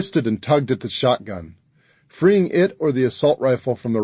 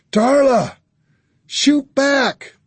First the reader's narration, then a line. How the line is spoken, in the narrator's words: I screamed